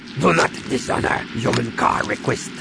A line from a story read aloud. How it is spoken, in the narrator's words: he growled in her face